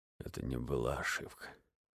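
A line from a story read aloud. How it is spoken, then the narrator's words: Mumbling. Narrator (Russian): бормотал Вильямсон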